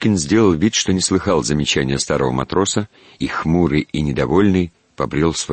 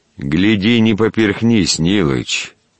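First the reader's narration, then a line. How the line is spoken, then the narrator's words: Calm call after someone. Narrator (Russian): кинул ему вслед спокойно Федосеич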